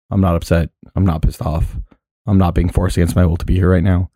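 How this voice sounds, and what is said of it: Flat monotone, deeper voice. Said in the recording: “It sounds super monotone ... Just a little bit deeper and less... deeper voiced.”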